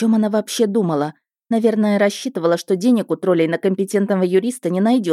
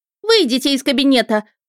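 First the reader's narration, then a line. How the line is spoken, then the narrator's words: Near shriek, woman. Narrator (Russian): почти завизжала она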